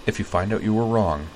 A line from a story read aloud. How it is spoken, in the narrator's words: Utina murmured